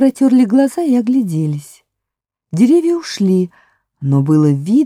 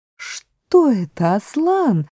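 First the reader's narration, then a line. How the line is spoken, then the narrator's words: Plain. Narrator (Russian): спросила Люси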